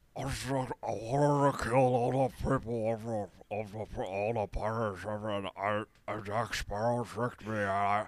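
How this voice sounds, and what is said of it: Mumbled movie villain character voice. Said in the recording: “do a Salazar impression ... it sounded a lot more mumbled than that”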